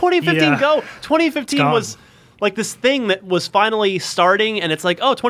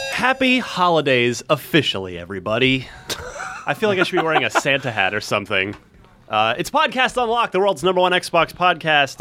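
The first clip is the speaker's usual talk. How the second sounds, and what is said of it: Radio announcer voice. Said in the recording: “You did your like radio announcer voice.”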